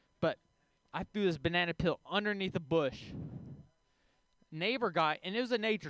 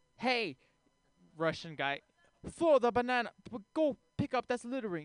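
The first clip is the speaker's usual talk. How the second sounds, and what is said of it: Put-on Russian accent. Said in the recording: “he has a Russian accent”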